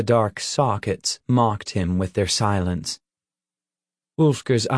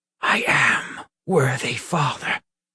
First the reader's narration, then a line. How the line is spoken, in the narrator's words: he whispered